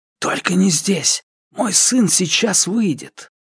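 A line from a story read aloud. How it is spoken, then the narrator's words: Whispered plea. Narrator (Russian): он шепотом взмолился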